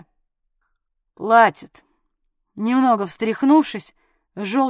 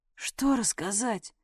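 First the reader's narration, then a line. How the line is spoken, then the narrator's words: Hoarse wheeze. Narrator (Russian): просипел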